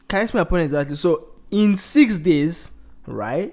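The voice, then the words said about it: Loud, shouting voice. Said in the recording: “Stop shouting.”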